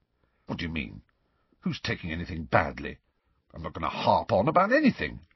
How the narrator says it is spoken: Ron continued to chunter under his breath

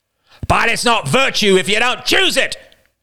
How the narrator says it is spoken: shouted Roman

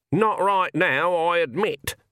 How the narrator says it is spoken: said Granny, her voice slightly muffled

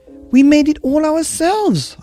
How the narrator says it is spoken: I cried

